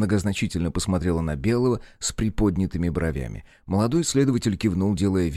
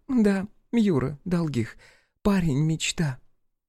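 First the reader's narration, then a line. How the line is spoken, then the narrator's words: Dreamy sighing speech. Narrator (Russian): сказала Ирина и мечтательно вздохнула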